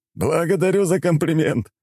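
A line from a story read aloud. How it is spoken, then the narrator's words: Short laugh. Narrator (Russian): хохотнул врач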